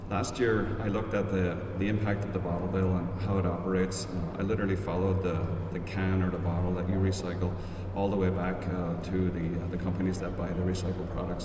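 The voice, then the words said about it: Irish accent, speaking slowly. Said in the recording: “I have an Irish accent, so I'll try and speak slowly.”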